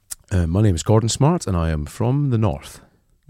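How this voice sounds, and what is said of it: Impression of Gordon Smart. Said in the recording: “I used to be able to do your voice... It's not bad at all.”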